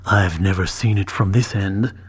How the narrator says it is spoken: Timur muttered as softly as he could muster

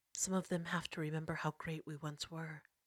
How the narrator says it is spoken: she muttered to herself

